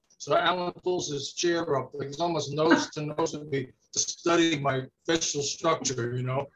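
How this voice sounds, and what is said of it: New York Brooklyn-Queens accent. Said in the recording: “with Italian stylings, you know. But it's really like a Brooklyn, Queens type thing ... Your accent makes me feel very at home ... your voice is very reminiscent of everything I grew up with”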